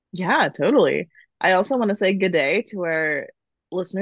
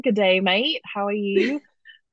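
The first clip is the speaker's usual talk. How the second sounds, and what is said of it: Poor attempt at Australian accent. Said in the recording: “That's not an Australian accent at all”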